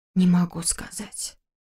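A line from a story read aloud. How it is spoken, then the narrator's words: Whisper. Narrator (Russian): прошептала я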